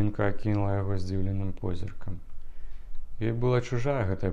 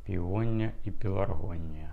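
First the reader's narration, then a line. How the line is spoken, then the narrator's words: Thoughtful repetition. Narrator (Belarusian): задуменна паўтарыў барана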